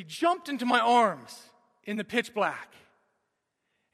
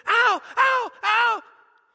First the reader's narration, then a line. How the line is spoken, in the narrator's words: he shrieked, and he said